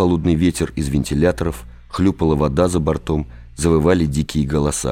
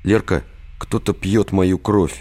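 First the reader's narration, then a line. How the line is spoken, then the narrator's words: Sad, resigned. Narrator (Russian): Грустно и обреченно произнес Виктор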